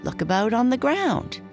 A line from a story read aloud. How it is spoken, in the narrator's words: answered him